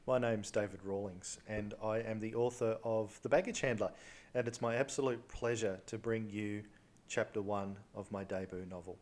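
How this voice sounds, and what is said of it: Australian accent. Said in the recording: “based on my accent, I should be saying g'day ... the Aussie accent of the author”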